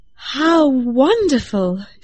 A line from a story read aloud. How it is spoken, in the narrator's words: exclaimed